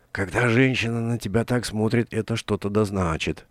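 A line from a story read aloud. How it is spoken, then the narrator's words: Whisper. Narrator (Russian): прошептал Вицикус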